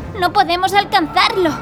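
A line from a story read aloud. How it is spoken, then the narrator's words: Frustrated shout. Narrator (Spanish): gritó Marta, frustrada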